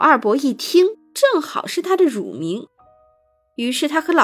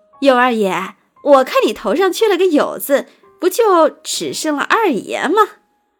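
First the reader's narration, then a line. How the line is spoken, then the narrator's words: Cheerful, beaming. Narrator (Chinese): 有二伯于是又笑逐颜开了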